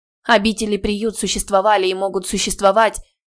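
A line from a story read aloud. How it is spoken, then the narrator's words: Cut-off speech. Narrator (Russian): начала была Теа, но Келфер грубо перебил ее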